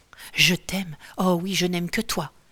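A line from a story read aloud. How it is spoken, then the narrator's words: Woman murmuring. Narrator (French): murmurait la femme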